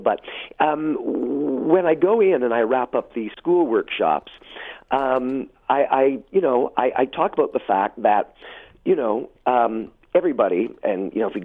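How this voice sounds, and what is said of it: Slightly hoarse voice. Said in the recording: “as you can tell, I'm a little hoarse, I'm just getting over a cold”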